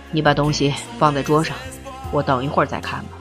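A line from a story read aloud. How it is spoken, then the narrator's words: Sighing. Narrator (Chinese): 明慧，他叹了口气说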